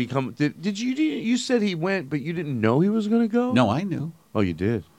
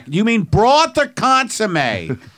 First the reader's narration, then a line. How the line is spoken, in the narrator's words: Like I would yell back